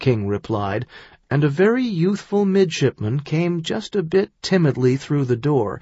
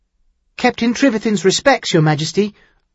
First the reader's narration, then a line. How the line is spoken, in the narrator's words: the youngster half-blurted